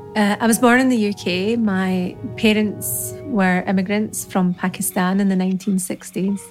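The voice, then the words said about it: Scottish accent. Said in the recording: “her wonderful Scottish accent as well”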